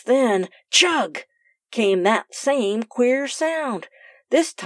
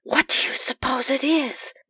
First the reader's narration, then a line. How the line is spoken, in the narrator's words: whispered Sue